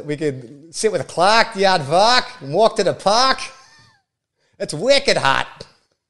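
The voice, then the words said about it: Put-on Boston accent. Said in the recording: “Your excellent impression ... I love the Boston accent”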